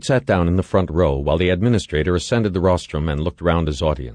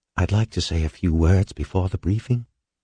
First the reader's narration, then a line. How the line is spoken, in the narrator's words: Floyd whispered to Halverson